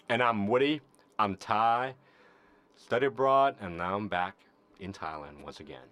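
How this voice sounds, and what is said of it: Accent people hear as New Orleans. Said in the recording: “He's not from New Orleans, despite what everyone says based on his accent.”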